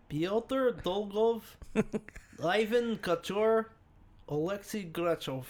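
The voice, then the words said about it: Put-on Russian accent. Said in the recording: “now say him in a Russian accent ... It's horrible, but ... it's there. ... Sorry for my derogatory Russian accent.”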